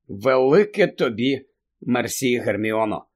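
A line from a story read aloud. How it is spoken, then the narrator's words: Tired. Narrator (Ukrainian): втомлено сказав Гаррі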